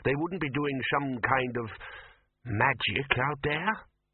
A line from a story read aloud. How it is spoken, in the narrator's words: said the bursar slowly